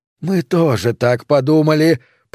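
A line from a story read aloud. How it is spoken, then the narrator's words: Groaning. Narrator (Russian): простонали Майка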